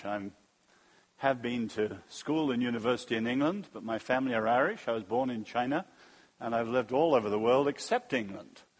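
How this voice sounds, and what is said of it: Mid-Atlantic English accent. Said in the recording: “my accent's not terribly English ... I call my accent mid-Atlantic ... in England, I'm taken as American, and in America, I'm taken as English”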